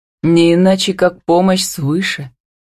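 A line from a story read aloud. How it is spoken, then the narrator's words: Relieved sigh. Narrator (Russian): вздохнул он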